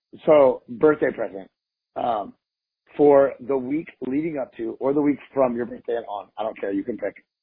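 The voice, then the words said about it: Hoarse, strained voice. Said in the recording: “can you hear how jacked up my voice is from screaming”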